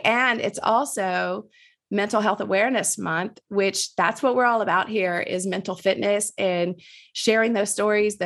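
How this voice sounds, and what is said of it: Slightly nasal, raspy voice. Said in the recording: “you can hear it in my voice. I'm a little nasally today because I got the allergies kicking in ... I definitely have a little bit raspier voice”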